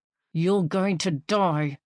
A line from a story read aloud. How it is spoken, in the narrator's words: said through gritted teeth